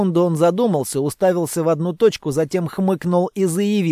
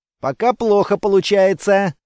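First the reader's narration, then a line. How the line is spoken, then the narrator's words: Snort. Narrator (Russian): хмыкнул я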